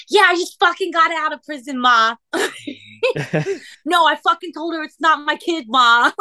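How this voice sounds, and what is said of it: Deliberately bad put-on Boston accent. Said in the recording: “I'm about to fucking terribly do a Boston accent. Like, this is going to be a horrible version of the Boston accent.”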